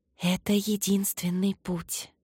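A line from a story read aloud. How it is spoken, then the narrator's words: Chorus of whispers. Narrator (Russian): шептали прародительницы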